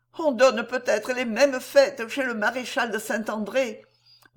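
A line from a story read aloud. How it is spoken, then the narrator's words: Sighing. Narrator (French): disait Ernestine en soupirant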